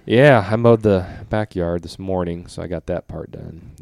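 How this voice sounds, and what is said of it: Voice changed by a cold. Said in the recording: “if my voice sounds different, it's because I've had a cold since Wednesday night ... a little bit of a sore throat, some draining”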